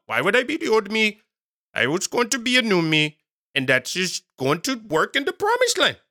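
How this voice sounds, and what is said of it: Put-on random accent. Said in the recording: “That's my random accent for today”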